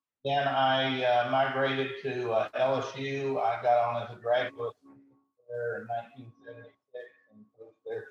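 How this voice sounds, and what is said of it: Rural Kentucky accent. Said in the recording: “if you can't tell by my voice, I'm a hillbilly really at heart. I grew up in a very rural small town in Kentucky.”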